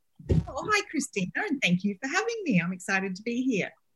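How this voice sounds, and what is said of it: Australian accent mixed with British. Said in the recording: “this beautiful accent of yours ... I'm from Australia. I lived in the UK for a long time ... you sound like such an Aussie ... is it a mishmash of British?”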